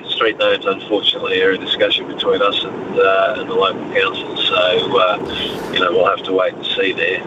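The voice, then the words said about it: Australian accent. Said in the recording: “you sound Australian”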